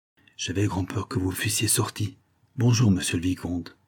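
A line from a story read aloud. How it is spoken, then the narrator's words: Low voice. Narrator (French): dit tout bas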